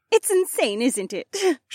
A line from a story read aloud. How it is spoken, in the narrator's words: She giggled